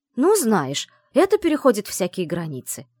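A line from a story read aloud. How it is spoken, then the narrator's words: Mock indignation. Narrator (Russian): делано возмущенно произнесла Вивьен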